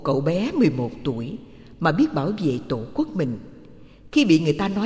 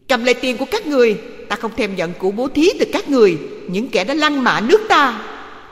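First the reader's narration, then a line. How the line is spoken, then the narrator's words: Contemptuous child's shout. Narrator (Vietnamese): Cậu bé thành Padova thét bằng giọng khinh bỉ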